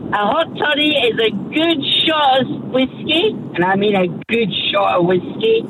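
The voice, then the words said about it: Scottish accent. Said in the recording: “how good's that accent? ... you sound like my late grandmother. That's exactly the accent ... She's Scottish”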